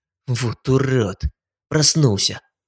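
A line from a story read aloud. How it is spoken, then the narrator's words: Muttered. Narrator (Russian): Пробормотал Шнайдер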